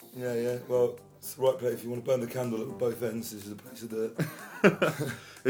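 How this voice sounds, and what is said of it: Hoarse, partly lost voice. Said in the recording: “Bit hoarse. ... Bit hoarse, a little pony. ... he's lost about half his voice”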